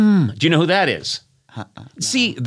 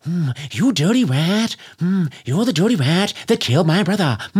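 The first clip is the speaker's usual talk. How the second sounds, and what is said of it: Jimmy Cagney impression. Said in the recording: “Old impressions... that's Jimmy Cagney, and that was the only impression that most people did for like 30 years”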